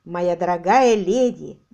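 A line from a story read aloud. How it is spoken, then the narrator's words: Booming exclamation. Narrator (Russian): воскликнул он своим зычным голосом, звучавшим лишь чуточку тише, чем орган в его соборе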